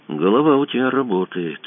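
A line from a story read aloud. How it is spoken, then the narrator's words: Quiet speech. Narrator (Russian): тихо сказал Кацуба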